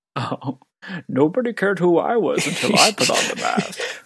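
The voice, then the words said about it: Bane-style masked villain voice. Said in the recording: “Did anybody attempt a Bane impression? ... that is a reasonable impression.”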